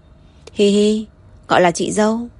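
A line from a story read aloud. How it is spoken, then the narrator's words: Sniffling, sighing. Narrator (Vietnamese): Thời Nghiên hít hít mũi, thở dài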